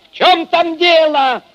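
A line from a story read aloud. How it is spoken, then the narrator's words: Shouted into darkness. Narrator (Russian): крикнул он в темноту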